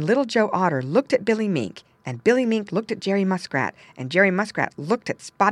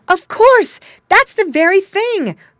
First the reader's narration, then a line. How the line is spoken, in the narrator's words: cried Little Joe Otter and Billy Mink and Jerry Muskrat and Spotty the Turtle